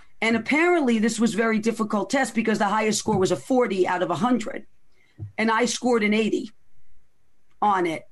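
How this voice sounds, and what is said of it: Bronx accent. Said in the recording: “with your Bronx accent”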